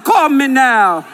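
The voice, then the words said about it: Jamaican accent imitating Miss Cleo. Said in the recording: “Miss Cleo ... She got that Jamaican accent.”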